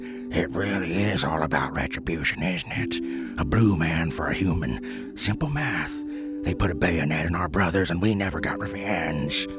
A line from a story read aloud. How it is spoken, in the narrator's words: Scribe turns his voice scratchier and lower and says to his fellow corpse voters